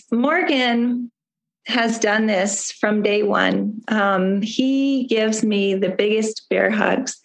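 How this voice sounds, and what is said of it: Hoarse voice. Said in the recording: “I'm sorry about a hoarse voice.”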